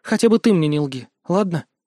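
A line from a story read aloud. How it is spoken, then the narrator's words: Sighing. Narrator (Russian): Я вздохнул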